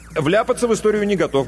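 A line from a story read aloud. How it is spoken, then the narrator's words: Quick reply. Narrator (Russian): быстро ответил Иванов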